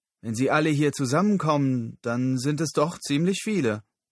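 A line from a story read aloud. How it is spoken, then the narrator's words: Called out. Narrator (German): rief Lyle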